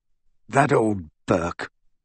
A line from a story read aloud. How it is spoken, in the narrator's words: muttered Aberforth